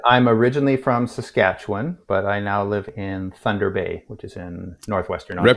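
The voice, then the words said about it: Canadian accent. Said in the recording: “you sound Canadian.”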